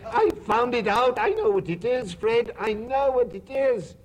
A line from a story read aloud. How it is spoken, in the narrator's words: the plump sister cried out